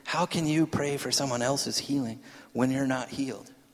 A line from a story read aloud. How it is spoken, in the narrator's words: the enemy whispers in your ear